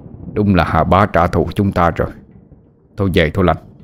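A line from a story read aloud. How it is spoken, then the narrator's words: Old man muttering. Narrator (Vietnamese): Ông lẩm bẩm nói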